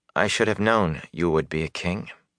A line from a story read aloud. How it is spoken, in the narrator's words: she said quietly